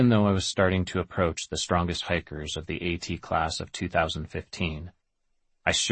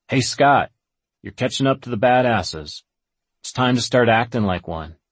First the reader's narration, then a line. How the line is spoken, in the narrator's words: I heard a fellow Nobo thru-hiker shout out